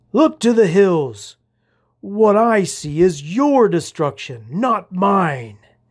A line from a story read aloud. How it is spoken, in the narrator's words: he bellowed